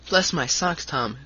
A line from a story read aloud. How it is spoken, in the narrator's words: cried the short, stout man